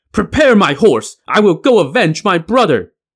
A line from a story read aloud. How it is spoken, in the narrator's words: the youngest of his five sons, Zeng Sheng, who was a skilled fighter with two knives, gnashed his teeth and hollered